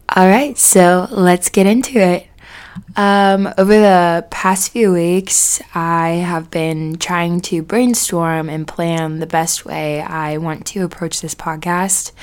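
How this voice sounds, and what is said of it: Slightly scratchy voice. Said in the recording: “my voice is going to sound a little scratchy”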